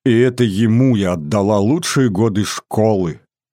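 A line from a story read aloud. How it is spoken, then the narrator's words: Grief-stricken exclamation. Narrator (Russian): горестно воскликнула Сулима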